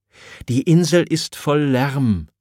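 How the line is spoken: Stammering. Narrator (German): stammelt

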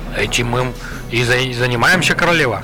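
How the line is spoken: Plain. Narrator (Russian): ответил Джимескин

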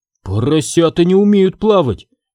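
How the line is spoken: Frightened whisper. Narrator (Russian): испуганно прошептал

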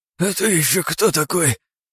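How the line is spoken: Hoarse wheeze. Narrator (Russian): просипел он

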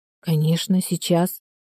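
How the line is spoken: Muttering. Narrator (Russian): пробормотала

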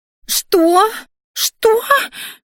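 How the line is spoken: Shrieked. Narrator (Russian): взвизгнула Криштия

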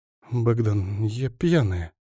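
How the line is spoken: Whisper. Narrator (Russian): прошептала она

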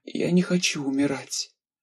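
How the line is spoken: Hoarse wheeze. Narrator (Russian): просипела она

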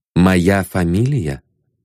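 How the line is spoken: Calm question. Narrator (Russian): спокойно спросил Ванзаров

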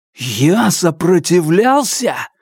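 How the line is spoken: Exclamation. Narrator (Russian): воскликнул я

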